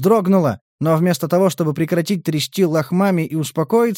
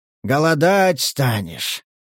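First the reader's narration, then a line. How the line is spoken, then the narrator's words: Wheeze. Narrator (Russian): просипел Захар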